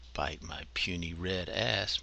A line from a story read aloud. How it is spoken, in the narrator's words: muttered Dew